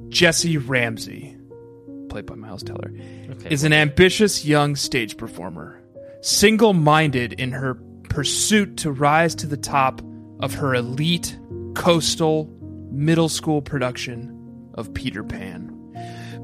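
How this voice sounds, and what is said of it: Grave, serious announcer-style voice. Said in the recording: “do my gravitas voice”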